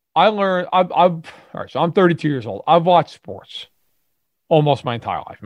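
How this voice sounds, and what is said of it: New York accent. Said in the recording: “I grew up in New York, for everyone who I'm sure can tell, either from my accent”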